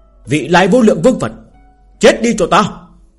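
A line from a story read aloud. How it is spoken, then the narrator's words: Loud shout. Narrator (Vietnamese): hét lớn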